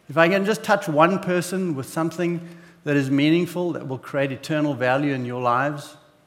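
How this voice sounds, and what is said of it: South African accent. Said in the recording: “my southern accent is not from South Carolina. I am a little further south than that, and actually South Africa”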